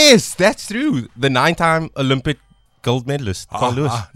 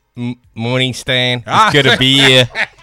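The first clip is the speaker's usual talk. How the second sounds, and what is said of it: Attempted American accent, sounds Australian. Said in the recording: “You have to respond in American twang ... That's more Australian than... ... That sounds Australian.”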